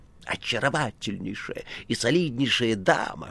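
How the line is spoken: Whisper. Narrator (Russian): шептал Коровьев

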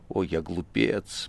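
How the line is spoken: Anguished muttering. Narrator (Russian): бормотал он в душевной боли

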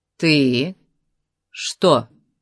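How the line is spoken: Calm. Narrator (Russian): спокойно сказал Конан

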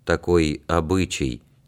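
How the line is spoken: Quiet old man. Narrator (Russian): тихо проговорил старик

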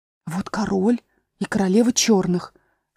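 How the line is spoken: Cautious whisper. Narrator (Russian): сказала Алиса шепотом, боясь их спугнуть

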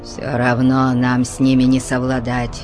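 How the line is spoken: Muttering. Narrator (Russian): пробурчал Тубал

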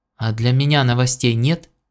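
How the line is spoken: Plain. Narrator (Russian): спросил Гордон

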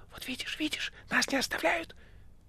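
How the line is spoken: Whisper. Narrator (Russian): шепнув мастеру

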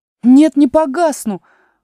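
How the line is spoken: Indignant shout. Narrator (Russian): возмущенно крикнула Алиса

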